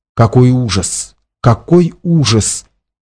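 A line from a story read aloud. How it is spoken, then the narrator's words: Quiet speech. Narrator (Russian): тихо говорил он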